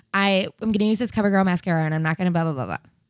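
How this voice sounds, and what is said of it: Fast-talking impression of another person. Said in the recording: “He talks super fast in all of his videos... This is my impersonation of James... That was a good impression... I bet that sounds just like him.”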